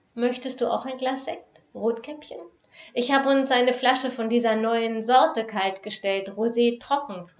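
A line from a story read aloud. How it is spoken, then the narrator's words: Plain. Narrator (German): fragte sie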